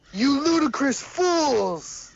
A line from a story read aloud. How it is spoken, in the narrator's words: He shouted